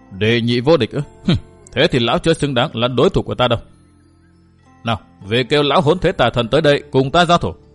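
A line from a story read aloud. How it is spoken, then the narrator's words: Scoffing, cold. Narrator (Vietnamese): Ngô Thành Nhân cười khẩy một tiếng rồi lạnh lùng thốt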